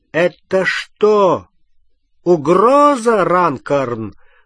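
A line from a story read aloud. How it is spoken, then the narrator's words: Loud inquiry. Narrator (Russian): громко осведомился мистер Уизли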